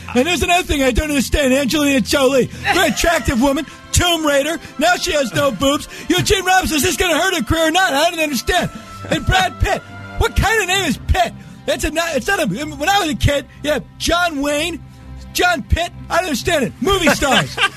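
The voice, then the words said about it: Impression of Chris Matthews. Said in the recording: “best impression ... Dana Gould as Chris Matthews”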